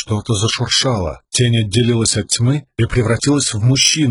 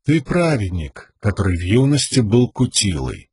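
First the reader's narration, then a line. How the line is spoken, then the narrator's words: Even steady voice. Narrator (Russian): продолжил тот ровным голосом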